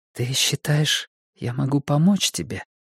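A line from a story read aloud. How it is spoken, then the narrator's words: Whisper. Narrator (Russian): прошептала она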